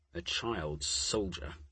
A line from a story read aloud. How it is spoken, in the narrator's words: Max muttered